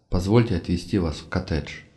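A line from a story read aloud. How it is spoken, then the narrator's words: Gentle voice. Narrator (Russian): ласково произнес я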